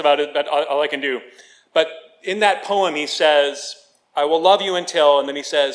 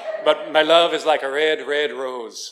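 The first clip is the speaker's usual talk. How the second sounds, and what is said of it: Attempted Scottish accent, sounds Irish. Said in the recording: “I was going to try to do a Scottish accent, but every time I do it, I sound like the Lucky Charms leprechaun”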